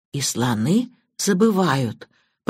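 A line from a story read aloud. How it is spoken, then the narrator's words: Whisper. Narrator (Russian): прошептала Банч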